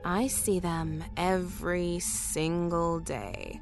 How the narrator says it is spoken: Tanya said slowly

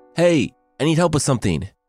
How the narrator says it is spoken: she yelled up

